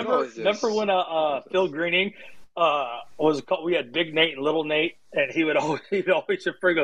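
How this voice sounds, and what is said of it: Usual voice. Nothing is said of it.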